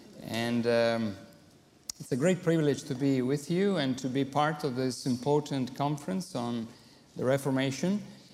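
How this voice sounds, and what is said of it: Italian accent in English. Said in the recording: “my broken English ... my Italian accent”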